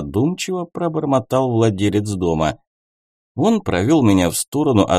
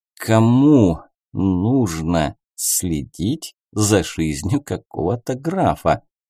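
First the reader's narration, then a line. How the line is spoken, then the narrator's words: Mumbled. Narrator (Russian): пробормотал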